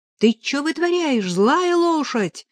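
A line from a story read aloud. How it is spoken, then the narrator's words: Offended shout. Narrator (Russian): обиженно выкрикнула Нелли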